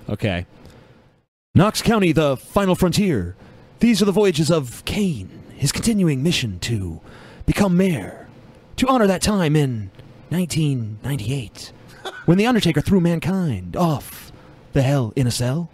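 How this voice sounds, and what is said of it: William Shatner-style dramatic pauses. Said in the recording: “Read it with the James C. Kirk, delay ... That's my William Shatner pause impersonation ... not really an impersonation of his voice”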